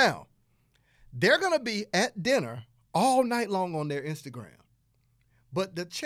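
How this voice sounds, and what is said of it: Usual voice. Nothing is said of it.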